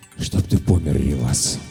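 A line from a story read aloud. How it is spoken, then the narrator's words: Breathed out. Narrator (Russian): выдохнул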